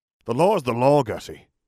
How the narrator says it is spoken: the Auror snapped irritably

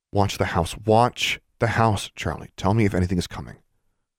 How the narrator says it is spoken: Alexandra said earnestly

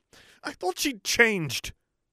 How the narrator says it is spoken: Lily exclaimed, her voice breaking

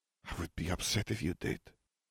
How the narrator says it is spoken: she murmured

